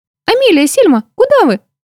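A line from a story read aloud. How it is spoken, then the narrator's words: Elf's squeak. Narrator (Russian): пискнула эльфийка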